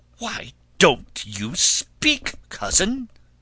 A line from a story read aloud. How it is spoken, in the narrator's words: suddenly shrieked the princess, so loud that those in the drawing-room heard her, and were startled